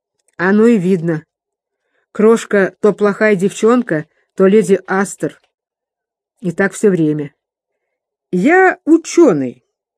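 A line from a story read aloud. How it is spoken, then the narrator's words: Stern, slurred lecturing. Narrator (Russian): строго и назидательно выговорил мсье Пипин заплетающимся языком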